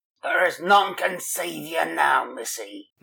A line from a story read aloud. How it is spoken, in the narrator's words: Mullins hissed jeeringly